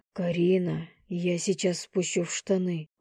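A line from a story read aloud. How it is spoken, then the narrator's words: Hoarse breathy. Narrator (Russian): выдохнул он хриплым голосом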